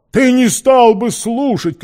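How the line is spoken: Shout. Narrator (Russian): крикнул Сквайр

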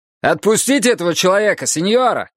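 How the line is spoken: Shout. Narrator (Russian): крикнул один

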